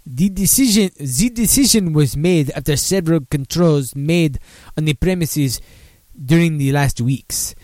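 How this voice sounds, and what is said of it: Put-on French accent. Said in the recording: “Let's see if I can do a French accent.”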